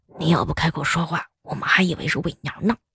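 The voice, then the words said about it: Quiet, hushed voice. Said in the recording (Chinese): “小声的来了一句”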